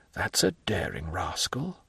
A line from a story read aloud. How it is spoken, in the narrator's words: whispered the Count